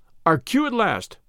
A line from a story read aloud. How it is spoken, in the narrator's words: cried Valentine